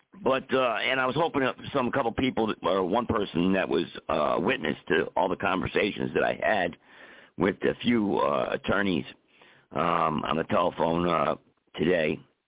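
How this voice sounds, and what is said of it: Hoarse, strained voice. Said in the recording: “I'm losing my voice because I've been arguing all day on the telephone”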